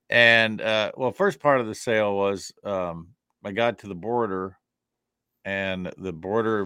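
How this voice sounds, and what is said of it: Usual voice. Nothing is said of it.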